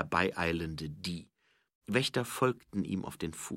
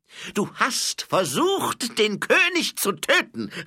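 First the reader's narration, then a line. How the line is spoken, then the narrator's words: Called out. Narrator (German): rief Die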